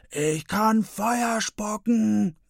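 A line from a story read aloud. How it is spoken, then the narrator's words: Roar. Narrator (German): brüllt Peppi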